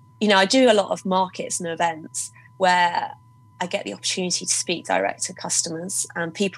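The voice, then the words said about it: Voice with a cold. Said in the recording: “I've got a bit of a cold. So if you can hear that, I'm sorry.”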